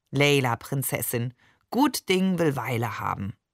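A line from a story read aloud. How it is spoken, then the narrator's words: Soothing, wise purring. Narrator (German): vertröstete er mich wie ein weise schnurrender Kater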